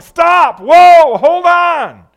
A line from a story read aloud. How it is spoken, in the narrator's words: He started yelling